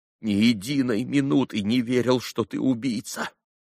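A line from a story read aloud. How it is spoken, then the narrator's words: Trembling outburst. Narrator (Russian): вдруг вырвалось дрожащим голосом из груди Алеши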